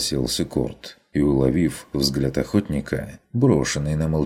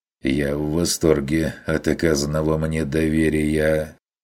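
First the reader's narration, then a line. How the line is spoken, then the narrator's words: Gloomy agreement. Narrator (Russian): согласился охотник мрачно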